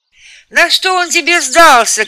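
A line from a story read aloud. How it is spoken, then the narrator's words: Shouting after someone. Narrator (Russian): крикнул я ему вслед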